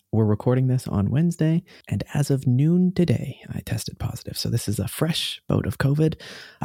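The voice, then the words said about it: Deep, radio-announcer-like sick voice. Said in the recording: “This NPR voice that I'm doing is actually the result of COVID 19”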